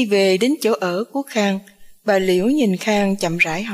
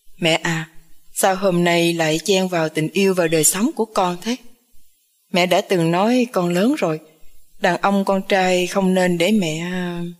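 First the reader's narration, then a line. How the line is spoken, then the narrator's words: Loud laughter. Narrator (Vietnamese): Khang cười to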